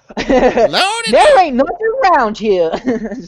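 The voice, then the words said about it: Stereotyped older woman character voice. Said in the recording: “the impression I'm doing is an impression of Tyler Perry doing a stereotype of this person, and it's a character ... The stereotype of an older black woman.”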